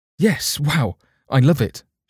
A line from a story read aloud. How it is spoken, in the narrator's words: she exclaimed